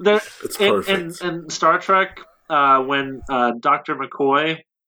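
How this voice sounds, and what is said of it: Usual voice. Nothing is said of it.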